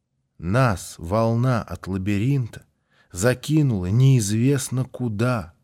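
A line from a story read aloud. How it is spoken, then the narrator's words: Plain. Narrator (Russian): сказал Валерка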